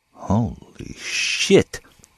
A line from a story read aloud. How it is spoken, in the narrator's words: the older man said softly